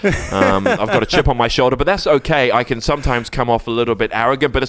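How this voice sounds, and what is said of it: Well-spoken English accent. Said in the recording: “you can tell my accent is, I'm quite English. I'm well spoken.”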